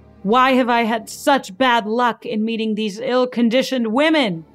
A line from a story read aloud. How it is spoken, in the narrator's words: he cried